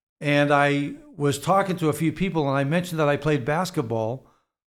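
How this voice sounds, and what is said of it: Boston accent. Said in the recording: “you're from Boston. I'm not sure if anyone could tell from the accent ... I assume I still have predominantly a Boston accent”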